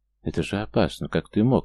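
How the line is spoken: Quiet, dragoness. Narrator (Russian): негромко проговорила Драконесса

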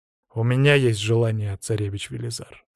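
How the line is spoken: Serious tone. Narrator (Russian): сказал я серьезным тоном

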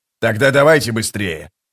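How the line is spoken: Grumbled. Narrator (Russian): проворчал скрипач

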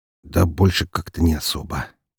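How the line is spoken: Muttered. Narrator (Russian): пробормотал Громов

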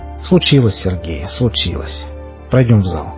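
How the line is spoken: Tired. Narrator (Russian): устало сказал Андрей

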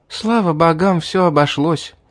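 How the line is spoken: Relieved sigh. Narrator (Russian): вздохнула она

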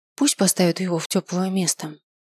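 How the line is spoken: Sighing. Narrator (Russian): вздохнул я

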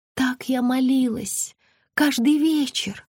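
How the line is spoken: Whisper. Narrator (Russian): прошептала Белоснежка

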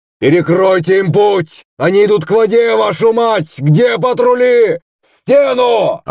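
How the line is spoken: Yelling from behind. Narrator (Russian): орал позади Шувалов

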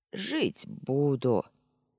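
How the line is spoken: Grumbling old woman's voice. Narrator (Russian): проворчала старушечьим голосом

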